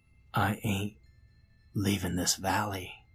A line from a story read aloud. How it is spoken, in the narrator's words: Jeff in a whisper, barely audible over the torrent of wind, said